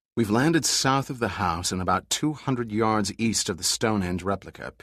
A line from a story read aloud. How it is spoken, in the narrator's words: replied quietly